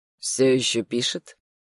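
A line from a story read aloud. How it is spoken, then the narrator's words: Calm yet uneasy question. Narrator (Russian): спросил он спокойно, но все равно что-то в его интонации мне не понравилось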